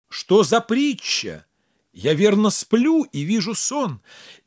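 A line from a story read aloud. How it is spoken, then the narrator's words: Astonished inner exclamation. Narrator (Russian): Абуль-Хасан опешил … его охватило изумление, и ум его был ошеломлен, и он воскликнул про себя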